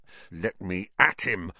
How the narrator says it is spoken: Ron growled

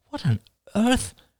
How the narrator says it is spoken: Oliver laughed suddenly

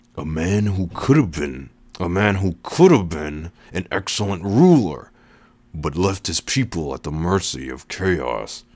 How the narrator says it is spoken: the man said through gritted teeth

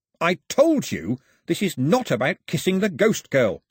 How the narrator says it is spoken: snapped Mao

